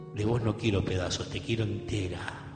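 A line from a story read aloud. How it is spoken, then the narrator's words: Murmured tenderly. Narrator (Spanish): él murmuró contra su piel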